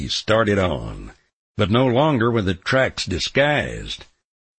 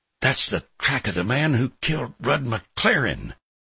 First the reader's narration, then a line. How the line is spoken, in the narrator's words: I whispered hoarsely